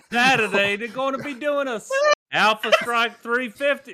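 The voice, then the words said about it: Wandering put-on English accent. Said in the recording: “you thought you were starting in England went through Italy and ended up in Australia”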